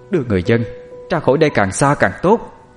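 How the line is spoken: Loud shout. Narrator (Vietnamese): Cô Hà hét to

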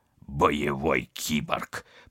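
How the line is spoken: Contemptuous snort. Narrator (Russian): презрительно фыркнул Вадим

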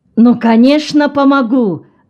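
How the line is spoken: Exclaimed. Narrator (Russian): воскликнул Роберт Карпентер

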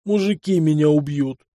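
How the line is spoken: Groan. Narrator (Russian): застонал Вилли

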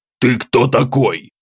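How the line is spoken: Rough deep voice. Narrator (Russian): грубо пробасил он

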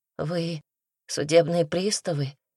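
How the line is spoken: Trembling young voice. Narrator (Russian): спросил молодой человек дрожащим голосом

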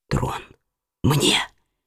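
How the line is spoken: Whispered. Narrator (Russian): прошептал Генрих

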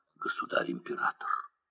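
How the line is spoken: Whispered. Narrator (Russian): Саблин прошептал

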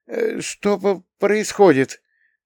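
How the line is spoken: Timid young babble. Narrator (Russian): пролепетала самая молодая матка, белокурая Стейси

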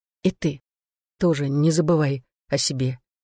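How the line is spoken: Quiet. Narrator (Russian): тихо сказала она

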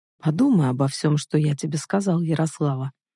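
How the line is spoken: Calm. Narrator (Russian): спокойно произнес он

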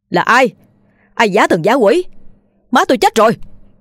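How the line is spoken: Howling yell. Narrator (Vietnamese): Hắn gào lên

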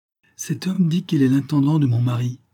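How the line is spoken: Exclaimed. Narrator (French): s'écria Jenny

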